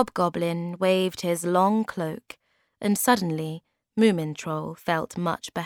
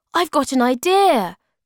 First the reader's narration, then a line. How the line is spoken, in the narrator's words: cried Moomin Troll